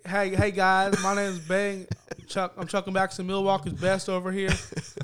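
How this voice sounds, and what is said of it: Imitates another person's voice. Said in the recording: “Why don't you do your Bing impression?”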